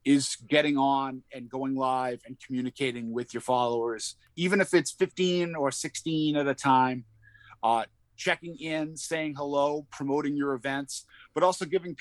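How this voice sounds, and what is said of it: Boston accent. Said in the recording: “my Boston accent kind of sets me apart. Sometimes it drifts in and out”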